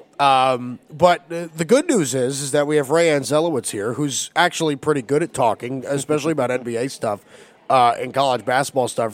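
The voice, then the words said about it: Raspy, hoarse voice from illness. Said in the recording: “my voice sounds sexier when I'm sick ... I got that rasp thing. Feels like I'm going to sing you a soulful tune.”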